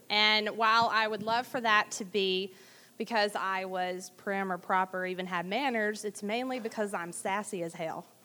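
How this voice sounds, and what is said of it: Southern American accent. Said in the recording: “I do have an accent. It's not Middle Eastern. It is from the South.”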